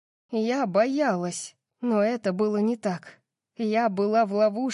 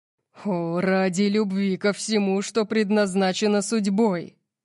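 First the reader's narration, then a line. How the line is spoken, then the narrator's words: Growl. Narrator (Russian): прорычал он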